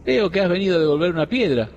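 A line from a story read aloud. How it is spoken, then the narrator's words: Cracked voice. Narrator (Spanish): dijo con voz cascada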